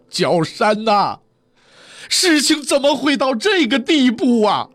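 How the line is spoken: Laughing. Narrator (Chinese): 此时的杨继盛笑了

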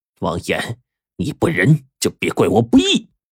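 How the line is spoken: Gritted-teeth muttering to self. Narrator (Chinese): 贾大师一咬牙，自言自语的说

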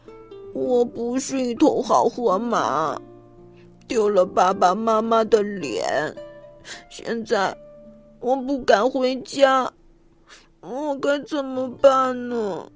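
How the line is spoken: Sighing. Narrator (Chinese): 弗莱迪叹息道

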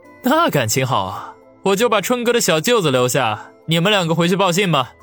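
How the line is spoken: Smiling. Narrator (Chinese): 王宇露出一抹微笑来说道

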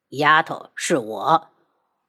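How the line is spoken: Cold sharp voice. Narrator (Chinese): 他冷声喝问

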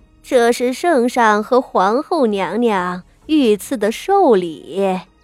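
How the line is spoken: Smiling eunuch. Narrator (Chinese): 魏公公笑道

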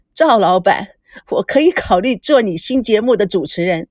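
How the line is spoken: Still laughing. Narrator (Chinese): 他尽情的笑完了，还是带笑了说

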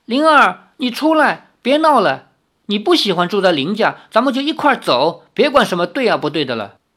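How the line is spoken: Calling out. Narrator (Chinese): 李逍遥叫道

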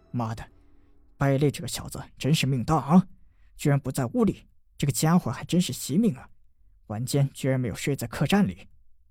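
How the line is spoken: Soft muttering. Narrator (Chinese): 这四人口中轻轻地嘟囔着

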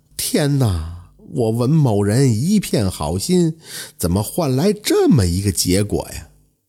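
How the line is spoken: Despairing sigh. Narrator (Chinese): 文之栋也绝望了，仰天长叹

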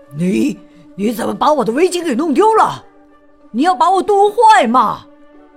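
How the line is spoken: Angry shout. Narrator (Chinese): 猎人生气的冲稻草人喊

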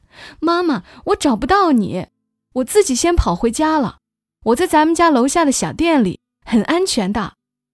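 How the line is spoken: Loud shout over phone. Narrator (Chinese): 岳阳在电话里大声喊

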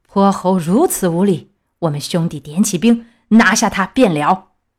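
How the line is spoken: Furious. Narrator (Chinese): 南海龙王敖青听了，大怒道

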